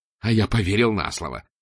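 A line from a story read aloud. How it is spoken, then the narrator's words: Snapping retort. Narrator (Russian): огрызнулся Жан-Оливье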